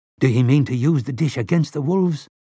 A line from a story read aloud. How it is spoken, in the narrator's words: asked in a queerly breathless voice